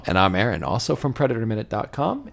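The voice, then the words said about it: Radio announcer voice. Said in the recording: “Good radio voice there.”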